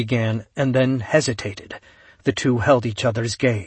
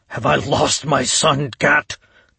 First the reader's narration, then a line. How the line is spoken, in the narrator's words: he asked, his voice ragged